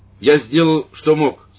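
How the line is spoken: Loud priest. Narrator (Russian): сказал священник громко

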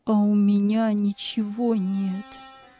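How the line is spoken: Sad muttering. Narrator (Russian): печально бормотал он

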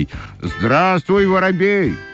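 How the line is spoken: Shouting. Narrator (Russian): закричали башмачки

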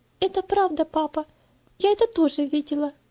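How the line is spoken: Shy girl's answer. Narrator (Russian): ответила девочка, слегка покраснев и робко

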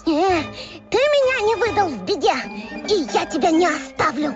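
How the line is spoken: Yell. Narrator (Russian): Воин заорал

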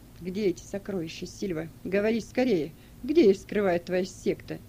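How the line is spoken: Muffled question. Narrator (Russian): Прокл глухо спросил

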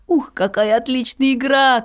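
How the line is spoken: Boy shouting. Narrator (Russian): крикнул мальчик

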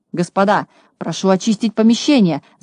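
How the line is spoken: Frightened shout. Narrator (Russian): закричал, испугавшись, Хабс

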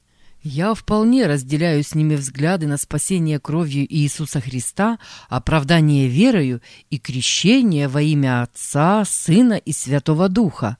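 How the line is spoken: Plain. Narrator (Russian): сказал я

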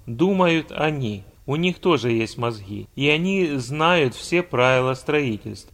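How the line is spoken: Calm. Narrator (Russian): А главный архитектор спокойно сказал

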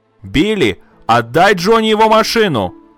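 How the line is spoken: Loud shout. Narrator (Russian): опять громко закричала она

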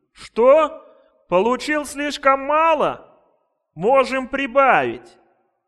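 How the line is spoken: Official shouting. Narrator (Russian): чиновник крикнул

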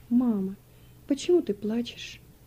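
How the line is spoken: Timid question. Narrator (Russian): робко спросил

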